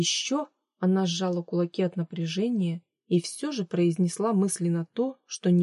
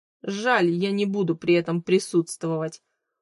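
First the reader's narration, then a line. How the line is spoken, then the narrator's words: Short laugh. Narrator (Russian): хохотнул Хью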